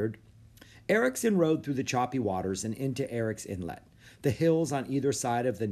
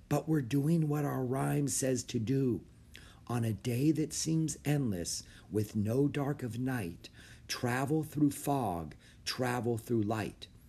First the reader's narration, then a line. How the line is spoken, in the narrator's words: Annie whispered